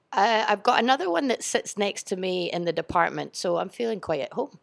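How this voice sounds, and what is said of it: Strong Scottish accent. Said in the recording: “So her accent you mightn't be getting. That's why I'm going to repeat everything from her. She's from Scotland”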